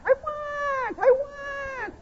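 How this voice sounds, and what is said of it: Whiny cat-like voice. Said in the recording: “I sound like my cat.”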